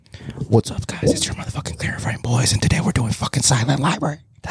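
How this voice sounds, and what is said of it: Whispering. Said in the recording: “you're whispering. Yes, that's why I'm whispering.”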